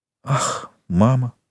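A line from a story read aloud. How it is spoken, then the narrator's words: Sigh. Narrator (Russian): вздохнула Рене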